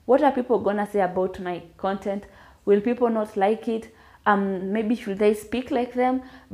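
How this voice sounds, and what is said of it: Kenyan Kiswahili Luhya Sheng accent. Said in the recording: “my Kiswahili Luya Sheng accent”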